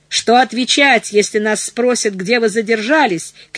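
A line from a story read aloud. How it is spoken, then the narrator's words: Shout. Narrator (Russian): кричал четвертый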